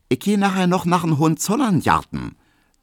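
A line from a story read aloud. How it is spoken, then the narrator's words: Plain. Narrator (German): sagt Hedwig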